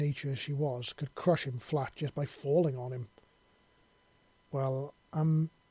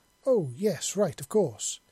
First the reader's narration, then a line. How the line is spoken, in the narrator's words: she exclaimed